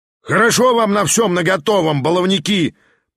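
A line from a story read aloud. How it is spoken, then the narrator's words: Roared with gleeful grin. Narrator (Russian): проревел у самой эстрады тот же семинарист, с удовольствием скаля зубы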